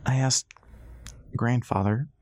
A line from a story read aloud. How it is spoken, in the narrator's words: Dixie said, choking on the word